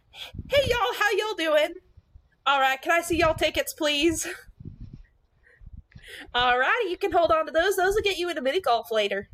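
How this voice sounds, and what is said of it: Put-on Southern US accent. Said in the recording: “I become Southern while working front gate ... type of Southern? Is it Texas Southern?”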